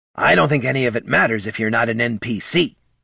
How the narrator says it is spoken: snapped Bert

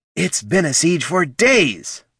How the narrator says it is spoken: barked Fenrir Goldson

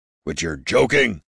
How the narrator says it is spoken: barked the smith

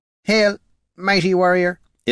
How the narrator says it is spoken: it said in an ethereal, jilted stammer

